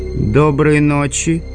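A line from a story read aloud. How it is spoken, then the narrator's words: Wheezing. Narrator (Russian): просипел Совиная голова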